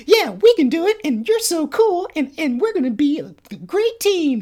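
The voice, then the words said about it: Cartoon character voice impression. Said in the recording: “great Tails impression”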